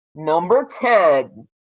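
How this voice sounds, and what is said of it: Dramatic voice. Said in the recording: “dramatic voice.”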